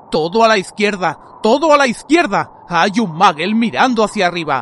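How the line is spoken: Sudden shout from behind. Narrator (Spanish): gritó de pronto Moody desde atrás

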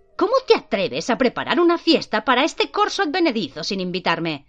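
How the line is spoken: Exclaimed. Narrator (Spanish): exclamó ella

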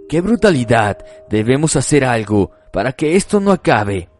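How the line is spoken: Witch exclaiming. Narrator (Spanish): exclamó la bruja

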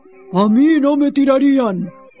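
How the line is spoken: Lion growling, speaking. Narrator (Spanish): El león soltó un gruñido y dijo

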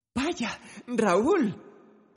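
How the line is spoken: Exclaiming. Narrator (Spanish): exclamó

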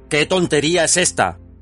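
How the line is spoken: Shouting. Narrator (Spanish): gritó

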